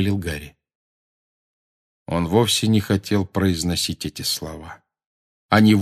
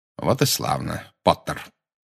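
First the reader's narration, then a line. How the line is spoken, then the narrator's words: Cold. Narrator (Russian): холодно сказал Снегг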